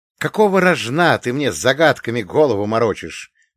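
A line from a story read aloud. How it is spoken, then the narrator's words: Angry bark. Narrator (Russian): рявкнул, сжимая кулаки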